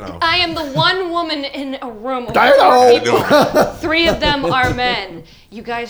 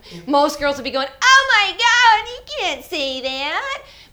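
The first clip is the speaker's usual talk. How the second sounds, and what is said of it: Exaggerated Valley Girl voice. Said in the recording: “my best Valley Girl impersonation ... You turned into an anime character.”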